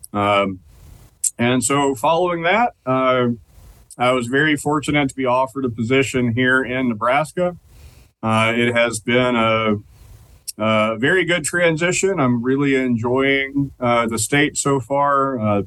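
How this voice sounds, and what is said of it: Noticeable regional accent. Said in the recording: “will suffer through my accent”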